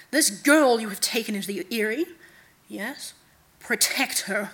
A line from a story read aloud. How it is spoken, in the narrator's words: the night god said sharply